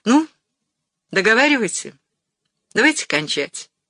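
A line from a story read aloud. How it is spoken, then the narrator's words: Sharp. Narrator (Russian): сказала резко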